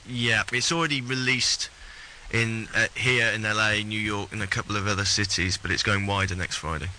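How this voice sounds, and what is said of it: British accent. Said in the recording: “fake British accent”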